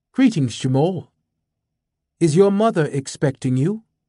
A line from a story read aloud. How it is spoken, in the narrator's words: In a warm, cultured voice, this robot bid